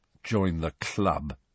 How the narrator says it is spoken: said Harry bitterly

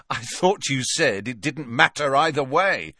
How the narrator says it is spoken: said Harry with a bitter laugh

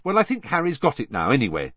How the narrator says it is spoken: said Hermione hastily

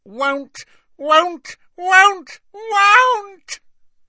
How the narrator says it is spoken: Creature's voice had risen to a scream

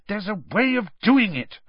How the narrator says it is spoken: Hermione said crossly

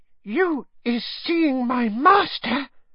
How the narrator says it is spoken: said Winky breathlessly

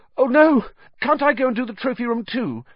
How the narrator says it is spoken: said Harry, desperately

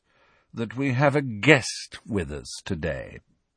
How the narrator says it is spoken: said Snape in his low, sneering voice

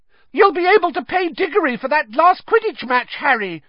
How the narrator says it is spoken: shrieked Katie Bell, another of the Gryffindor chasers

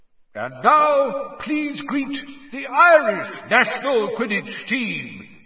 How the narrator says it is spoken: yelled Bagman

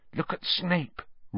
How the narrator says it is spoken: Ron hissed in Harry's ear

